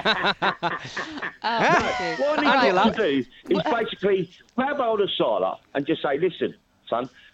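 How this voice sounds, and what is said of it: Scouse Liverpool accent. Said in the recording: “I love your Scouse accent.”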